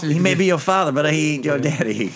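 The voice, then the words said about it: Imitates a movie character's accent. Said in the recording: “Say you did a better accent of him”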